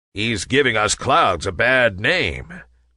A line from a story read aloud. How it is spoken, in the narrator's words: growled a big, burly cloud